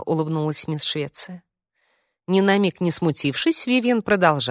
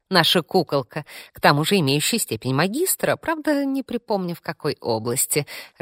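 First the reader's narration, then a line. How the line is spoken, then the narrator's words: Laughing. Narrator (Russian): рассмеялась Вивьен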